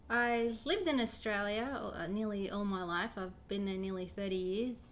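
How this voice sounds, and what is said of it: Australian-sounding accent. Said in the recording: “I always thought that you lived in Australia because of your accent.”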